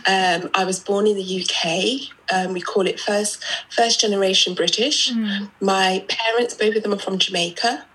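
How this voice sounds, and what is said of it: British accent. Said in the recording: “I'm British, which you might know by my accent.”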